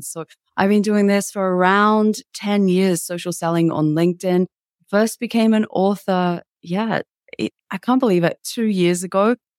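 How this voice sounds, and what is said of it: Australian accent. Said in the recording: “as you can tell, I'm here in Sydney, Australia. That's the accent that everybody has come to know and apparently love.”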